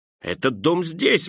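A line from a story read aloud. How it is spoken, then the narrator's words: Exclaiming. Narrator (Russian): воскликнул Скрудж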